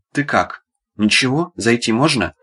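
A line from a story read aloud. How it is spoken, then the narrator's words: Deep bass voice. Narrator (Russian): пробасил верный Бурка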